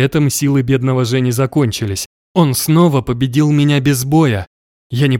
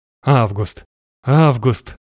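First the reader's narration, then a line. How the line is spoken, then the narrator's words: Ceaseless fearful whisper. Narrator (Russian): шептал, не переставая, желая наконец сказать то, что боялся озвучить больше всего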